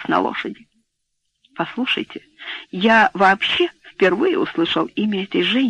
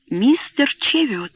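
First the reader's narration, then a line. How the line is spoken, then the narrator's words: Exclamation. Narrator (Russian): воскликнула она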